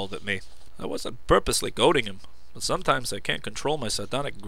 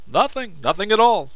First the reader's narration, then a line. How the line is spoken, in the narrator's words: Grinning just a bit too fiercely, said